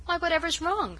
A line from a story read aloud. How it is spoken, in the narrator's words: cried mystified Mary